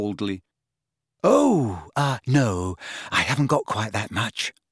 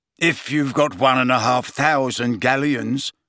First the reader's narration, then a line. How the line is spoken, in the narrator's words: said Mr